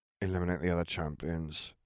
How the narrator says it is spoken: he muttered

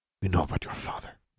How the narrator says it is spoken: Mercurio said, lowering his voice to a whisper again

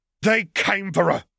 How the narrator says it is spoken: snarled Bella

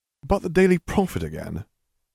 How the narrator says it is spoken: Harry stifled a yawn

